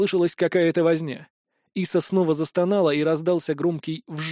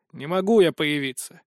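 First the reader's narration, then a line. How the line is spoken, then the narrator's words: Grumbling spirit. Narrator (Russian): проворчал дух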